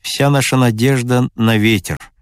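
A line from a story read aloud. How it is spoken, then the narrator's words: Dejected voice. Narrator (Russian): упавшим голосом сказал Трегубов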